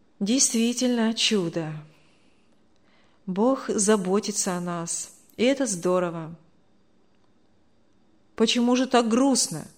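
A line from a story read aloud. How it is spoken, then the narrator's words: Sad. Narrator (Russian): грустно сказал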